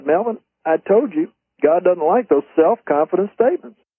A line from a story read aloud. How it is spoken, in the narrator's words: I kind of playfully said